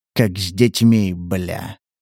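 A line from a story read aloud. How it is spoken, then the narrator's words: Hunter whispering through teeth. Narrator (Russian): прошептал охотник сквозь зубы, так, что услышал его только Стас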